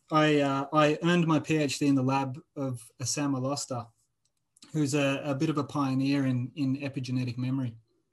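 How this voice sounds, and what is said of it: Speaks with a noticeable accent. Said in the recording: “Is that enzyme. where you get your accent from?”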